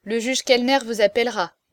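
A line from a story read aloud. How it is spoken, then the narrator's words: Curt, dry. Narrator (French): dit-il sèchement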